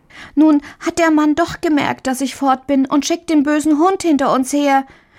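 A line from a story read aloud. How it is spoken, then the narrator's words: Little girl calling. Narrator (German): rief die kleine Marie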